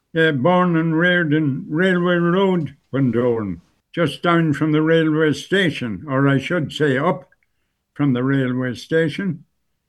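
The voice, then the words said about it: Irish Bundoran accent. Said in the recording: “you've retained your accent almost entirely ... There's a specific Bundoran sort of Ballyshannon accent that we have, and you certainly have retained that.”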